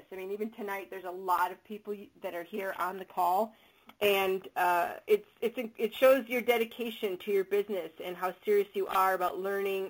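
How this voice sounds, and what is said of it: Soothing Chicago accent. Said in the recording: “my soothing Chicago accent voice”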